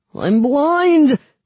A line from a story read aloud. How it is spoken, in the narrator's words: wailed the man on the ground